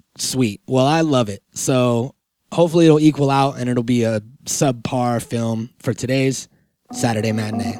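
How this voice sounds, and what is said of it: Sick, under-the-weather voice. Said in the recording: “I am sick. I'm under the weather, if you can't tell from my voice.”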